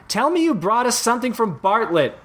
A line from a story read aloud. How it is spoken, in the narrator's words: CJ shouted